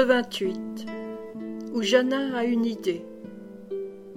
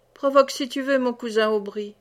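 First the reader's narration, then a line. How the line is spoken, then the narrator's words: Laughing reply. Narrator (French): répondit Méloire en riant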